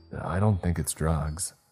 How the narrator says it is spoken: I said again

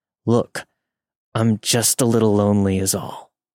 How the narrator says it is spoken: Through gritted teeth, trying to mask his frustration, he said

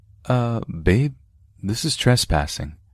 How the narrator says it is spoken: Benjamin called hesitantly

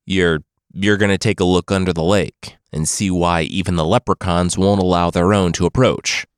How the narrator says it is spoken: Muna sighed

